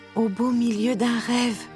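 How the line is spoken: King's drowsy sigh. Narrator (French): soupira le roi Hubert avant de s'endormir

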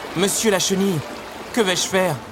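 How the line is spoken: Pleading. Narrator (French): supplia Alice

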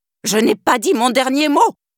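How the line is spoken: Screamed. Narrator (French): hurla-t-elle

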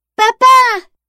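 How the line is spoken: Exclaiming. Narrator (French): s'écrie Jeanne

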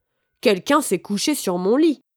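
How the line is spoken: Mother bear exclaiming. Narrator (French): maman ours s'exclama

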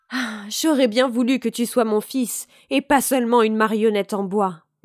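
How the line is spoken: Sighing. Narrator (French): dit-il tout en soupirant

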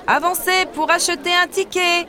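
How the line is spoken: Man shouting. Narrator (French): crie un homme

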